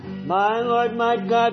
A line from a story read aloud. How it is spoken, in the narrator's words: the doubter cried